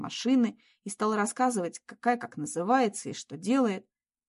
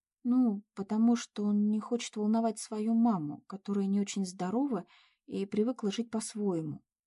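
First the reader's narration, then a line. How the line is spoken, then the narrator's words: Calm reply. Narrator (Russian): спокойно ответила Надя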